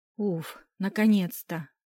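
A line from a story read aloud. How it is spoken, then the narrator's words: Niece exhaling. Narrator (Russian): Выдохнула племяшка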